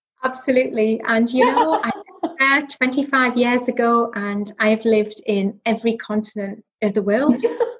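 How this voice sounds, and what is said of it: Northeast English Newcastle accent. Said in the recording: “Tell from my accent. Yes, yeah. I'm from the northeast. I grew up in Northumberland... I hear a bit of Newcastle twang... I can't shift the accent... Diane's also a Geordie”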